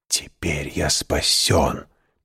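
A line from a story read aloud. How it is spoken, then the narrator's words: Whisper. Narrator (Russian): прошептал он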